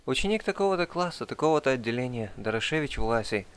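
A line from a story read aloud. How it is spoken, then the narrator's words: Timid. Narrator (Russian): робко отрекомендовался я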